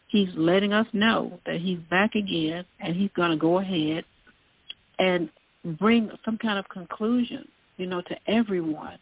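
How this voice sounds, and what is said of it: Southern American accent. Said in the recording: “Excuse my southern accent.”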